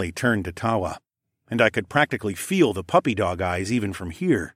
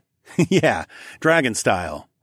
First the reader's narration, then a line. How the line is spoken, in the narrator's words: I chuckled